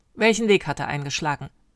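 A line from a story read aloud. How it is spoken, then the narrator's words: Snapping harshly. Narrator (German): schnauzte ihn Valentin an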